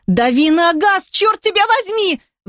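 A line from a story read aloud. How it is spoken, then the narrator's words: Hysterical yell. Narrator (Russian): В истерике заорала Ники, о чем скоро пожалела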